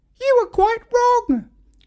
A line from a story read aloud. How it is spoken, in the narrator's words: squeaked Hiranya